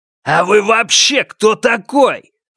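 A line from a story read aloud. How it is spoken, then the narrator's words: Bark. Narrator (Russian): Рявкнул Льян Жихао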